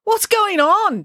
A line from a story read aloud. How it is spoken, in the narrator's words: Joe yelled